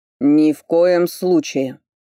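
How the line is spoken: Barked. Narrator (Russian): рявкнул Норберг

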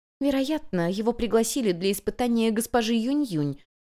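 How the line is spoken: Very quiet remark. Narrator (Russian): совсем тихо заметила другая служанка

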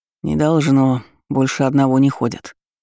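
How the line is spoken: Grumbling. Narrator (Russian): буркнул Серж

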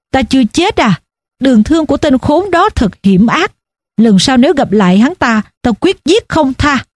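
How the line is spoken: Smiling question. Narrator (Vietnamese): Hồ Bân hắn mỉm cười hỏi

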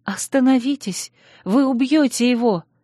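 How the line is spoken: Frightened cry. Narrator (Russian): испуганно вскрикнула я

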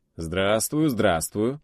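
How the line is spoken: Light laugh. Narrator (Russian): легко засмеялся главный идеолог страны Советов

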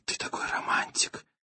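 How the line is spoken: Whisper. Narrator (Russian): Она прошептала

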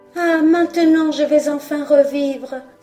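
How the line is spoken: Exclaiming fir tree. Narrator (French): s'écria le sapin

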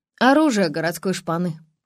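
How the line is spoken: Scoffing. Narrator (Russian): хмыкнул он

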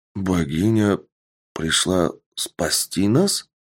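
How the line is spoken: Surprised warrior muttering. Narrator (Russian): пробормотал удивленный воин

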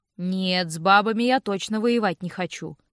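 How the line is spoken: Muttering under breath. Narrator (Russian): проворчал Винс себе под нос

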